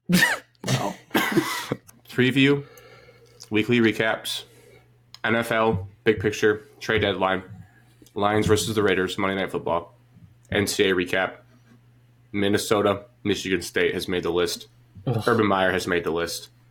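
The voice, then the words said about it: Muffled speech with food in mouth. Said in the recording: “Can you swallow your food, dude? ... My voice sounds different.”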